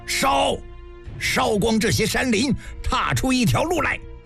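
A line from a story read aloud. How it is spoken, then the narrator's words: Battle shout. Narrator (Chinese): 魏军一声呐喊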